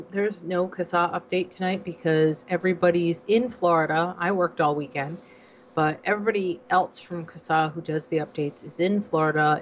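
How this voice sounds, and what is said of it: Voice sounds weird from illness. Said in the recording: “my voice sounds a little weird, I'm like finally starting to get cleared up from the pneumonia I had. So everything sounds weird, even my voice.”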